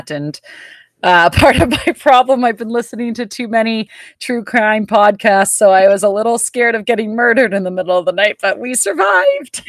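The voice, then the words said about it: Voice slightly going, strained. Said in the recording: “my voice is going a little bit.”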